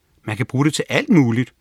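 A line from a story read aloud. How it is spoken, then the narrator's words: Enthusiastic. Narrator (Danish): svarede Ikiru begejstret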